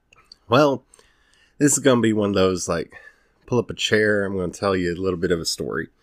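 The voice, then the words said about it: Southern US accent. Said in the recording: “I can tell my accent's coming out... born and raised in, well, between the Ozarks, Texas, Tennessee”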